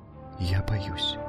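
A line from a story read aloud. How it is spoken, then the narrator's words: Barely audible. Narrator (Russian): еле слышно сказала Алкмена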